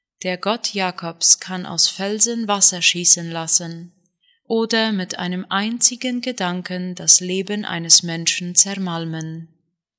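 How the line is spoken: Said quietly. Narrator (German): sagte er leise

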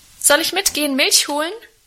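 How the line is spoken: Cheerful calling out. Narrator (German): rief ich ihm munter zu

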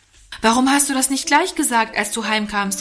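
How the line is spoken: Vehement shout. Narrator (German): rief Norman heftig

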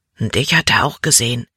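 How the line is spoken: Low warning. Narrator (German): warnte Caleb mit leiser Stimme

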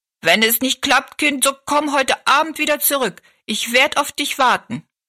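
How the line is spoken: Calling after someone. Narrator (German): rief sie noch hinterher

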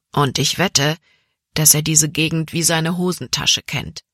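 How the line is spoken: Plain. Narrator (German): sagte Caleb

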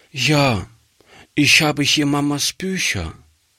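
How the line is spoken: Sad child's voice. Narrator (German): sagte die Kleine traurig

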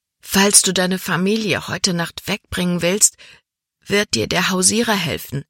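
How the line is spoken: Plain. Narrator (German): sagte Libby

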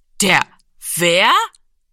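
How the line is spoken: Loud laughter. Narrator (German): Giro lachte laut auf

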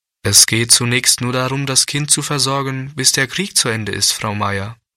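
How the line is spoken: Plain. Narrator (German): sagte der Pastor

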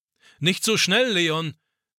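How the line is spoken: Old man calling after. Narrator (German): ruft Opa ihm nach

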